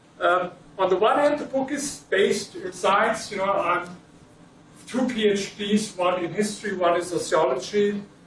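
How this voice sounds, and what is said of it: German accent. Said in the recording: “without the German accent”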